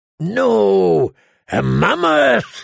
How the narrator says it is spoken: Tormund bellowed

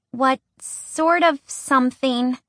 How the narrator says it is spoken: Pipsqueak asked, her voice higher than normal

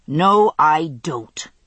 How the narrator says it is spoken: snarled

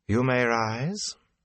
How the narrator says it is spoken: Morghese said in a rich, warm voice that held Elaine's assurance of obedience 100 times over

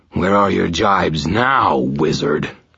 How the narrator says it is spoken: Kravos snarled

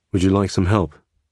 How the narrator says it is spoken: he asked

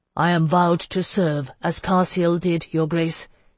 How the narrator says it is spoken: he said in his even voice

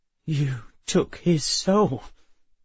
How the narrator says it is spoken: Emma said, her voice wavering

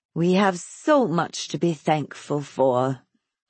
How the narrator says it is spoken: she said suddenly in a mournful, marveling tone

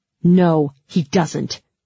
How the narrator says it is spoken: Mal said fiercely

